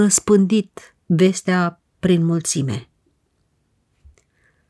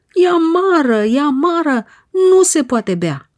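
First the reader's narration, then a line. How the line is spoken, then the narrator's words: Desperate crowd shouting. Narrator (Romanian): spre disperarea lor, strigând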